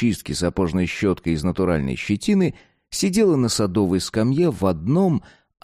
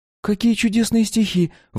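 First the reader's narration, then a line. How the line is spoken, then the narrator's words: Exclaiming. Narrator (Russian): воскликнула Маша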